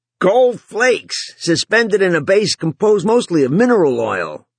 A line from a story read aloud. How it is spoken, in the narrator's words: the pilot yelled back